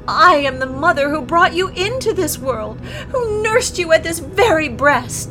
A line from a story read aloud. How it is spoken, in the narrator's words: she wailed